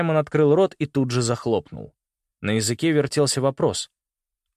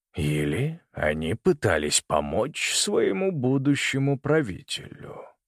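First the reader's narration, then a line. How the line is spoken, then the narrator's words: Quiet suggestion. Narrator (Russian): тихо предположил он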